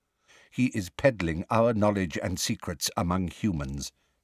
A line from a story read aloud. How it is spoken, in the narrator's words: said Magorian quietly